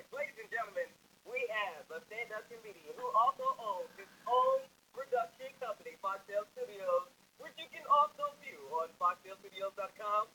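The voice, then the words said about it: Booming announcer voice. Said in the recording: “announcer voice”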